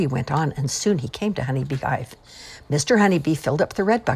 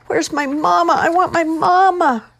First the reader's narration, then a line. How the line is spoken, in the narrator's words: Teddy wailed